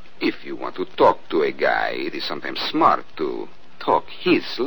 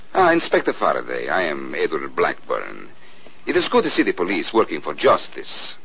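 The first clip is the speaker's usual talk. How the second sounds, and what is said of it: Put-on Central European accent. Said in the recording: “He talks with an accent ... Central European, maybe. ... Like this? ... Well, that's pretty close.”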